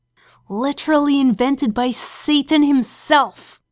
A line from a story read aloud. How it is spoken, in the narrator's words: Crowley hissed